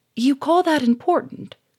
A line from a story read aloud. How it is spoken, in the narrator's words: cried Germaine